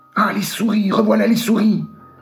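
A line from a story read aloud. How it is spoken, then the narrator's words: Exclaimed. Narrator (French): s'écria Marie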